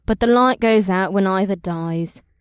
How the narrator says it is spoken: the Zinkari woman said in a bored voice, as if she'd repeated the odd phrase dozens of times before

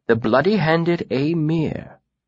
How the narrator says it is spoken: Alvaron mused softly to himself

